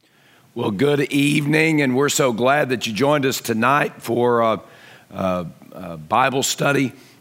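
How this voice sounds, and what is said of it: Strained voice. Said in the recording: “my voice is a little bit strained”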